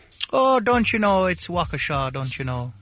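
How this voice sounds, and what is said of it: Attempted Wisconsin accent sounding Irish. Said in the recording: “Can you apologize with a Wisconsin accent? ... That's Irish. That's straight Irish. ... That's straight up Ireland.”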